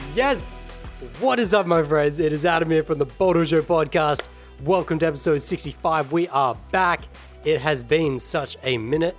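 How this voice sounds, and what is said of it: Strained, worn-out hoarse voice. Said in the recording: “my voice is a little reefed at the moment. It's a little out of commish ... I kind of just destroyed it”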